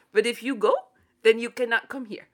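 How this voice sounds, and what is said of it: Poor put-on French accent. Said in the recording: “the French were like ... this is not a good accent ... It was better than the first attempt. ... It's better than before”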